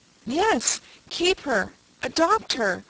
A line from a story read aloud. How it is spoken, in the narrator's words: said Una eagerly, gaining courage now that the ice was broken